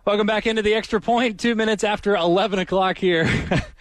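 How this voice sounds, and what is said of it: Out of breath, panting speech. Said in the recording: “I'm out of breath... You're still really out of breath”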